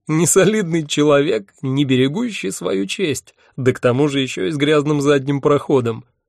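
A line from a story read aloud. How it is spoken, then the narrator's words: Groaning through laughter. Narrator (Russian): сквозь смех простонал я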